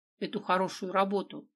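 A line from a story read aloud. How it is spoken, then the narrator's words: Grumbling. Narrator (Russian): проворчал Бодя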